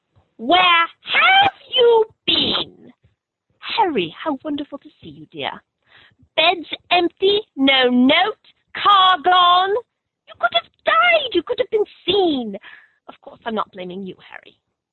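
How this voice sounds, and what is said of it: Impression of Mrs. Weasley. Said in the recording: “impersonating Mrs. Weasley ... That was excellent.”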